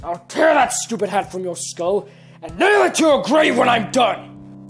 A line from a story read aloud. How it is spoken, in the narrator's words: He roared